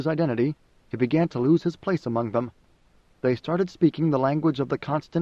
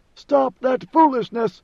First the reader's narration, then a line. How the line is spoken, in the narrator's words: he cried, or thought he cried